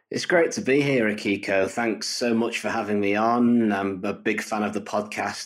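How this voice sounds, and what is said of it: British northern English accent. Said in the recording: “your beautiful British accent ... I am from Manchester in the northwest of England”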